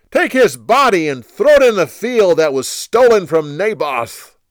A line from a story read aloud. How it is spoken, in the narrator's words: He then shouted to the others